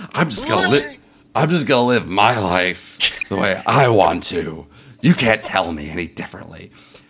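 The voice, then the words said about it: Imitates another person's voice. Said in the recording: “the same voice that I use for my drunk transvestite is the same voice I use for my Lindsay Lohan impression”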